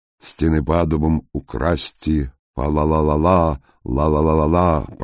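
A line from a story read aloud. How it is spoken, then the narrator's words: Deep bass singing. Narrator (Russian): пробасил он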